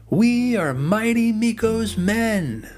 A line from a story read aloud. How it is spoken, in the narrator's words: cried out in one voice